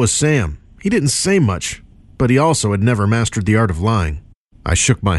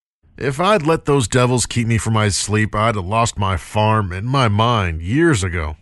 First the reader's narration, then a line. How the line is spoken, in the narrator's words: Sam grunted with what I took to be agreement